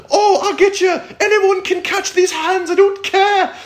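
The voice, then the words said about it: Put-on British accent imitating another person. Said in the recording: “that weird accent where he tries to talk trash... talks trash in a British accent. It just sounds too proper”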